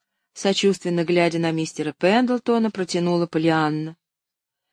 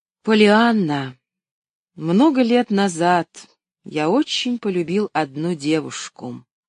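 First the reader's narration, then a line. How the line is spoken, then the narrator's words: Muffled, hollow. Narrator (Russian): глухо проговорил он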